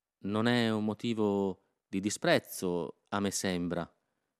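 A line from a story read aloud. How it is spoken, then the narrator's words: Woman murmuring. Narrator (Italian): essa mormorò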